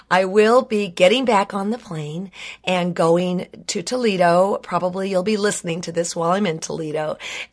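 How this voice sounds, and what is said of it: Hoarse, strained voice. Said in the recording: “my voice is a little hoarse. ... I probably should end this now while I still have a squeak here and there.”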